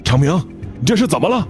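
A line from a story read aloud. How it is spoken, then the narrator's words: Urgent group question. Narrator (Chinese): 钻工们急忙问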